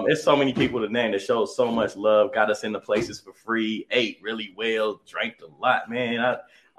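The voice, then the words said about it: Hoarse, partly lost voice. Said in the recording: “I lost my voice. It's coming back a little bit”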